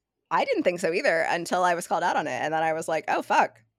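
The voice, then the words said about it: Valley Girl accent. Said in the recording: “my Valley Girl voice ... You should not sound like you're from Southern California ... Do I have a Valley Girl voice? Apparently, yes.”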